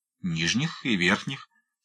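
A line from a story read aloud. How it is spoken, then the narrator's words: Stranger's calm repetition. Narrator (Russian): спокойно повторил незнакомец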